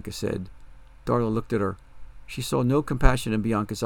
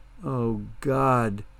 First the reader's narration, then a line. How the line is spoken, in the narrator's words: Darla whimpered